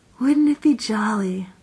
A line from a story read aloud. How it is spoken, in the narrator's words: said Jane dreamily